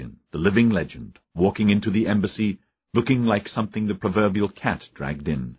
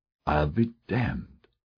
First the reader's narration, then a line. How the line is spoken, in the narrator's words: Motzkin murmured